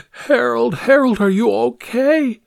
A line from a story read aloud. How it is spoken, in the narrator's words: An old woman's voice cried out